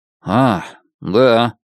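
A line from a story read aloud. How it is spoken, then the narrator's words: Gloomy. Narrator (Russian): мрачно ответил Лоуренс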